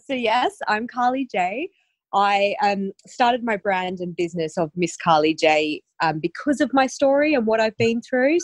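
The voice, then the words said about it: Slight Australian accent twang. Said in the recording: “a little bit of a twang of an accent... I grew up in Australia”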